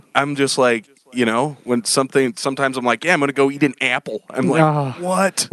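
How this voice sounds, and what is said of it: Deep baritone with strong Midwestern accent. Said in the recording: “that guy has a hard Midwestern accent ... that's a baritone if I've ever heard one”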